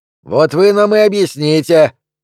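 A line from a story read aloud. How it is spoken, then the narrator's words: Spectator shouting. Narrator (Russian): крикнул один из зрителей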